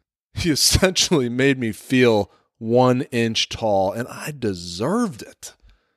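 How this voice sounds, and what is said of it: Usual voice. Nothing is said of it.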